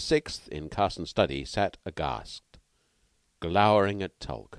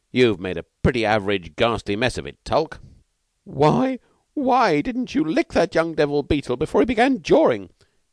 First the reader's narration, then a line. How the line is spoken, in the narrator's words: Tulk wailed